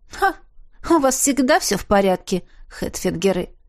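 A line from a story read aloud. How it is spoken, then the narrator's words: Grumbled. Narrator (Russian): проворчала Рин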